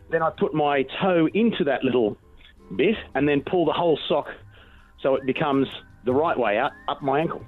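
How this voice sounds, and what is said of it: Australian accent. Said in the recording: “Is anyone else picking up on an accent here? ... A little bit. ... The maverick of our friends down under.”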